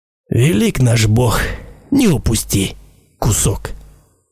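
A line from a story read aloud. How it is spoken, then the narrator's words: Mutter. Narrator (Russian): Пробормотал Гариш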